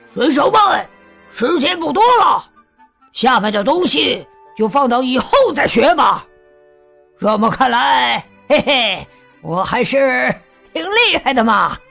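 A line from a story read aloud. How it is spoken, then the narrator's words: Roaring. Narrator (Chinese): 他吼道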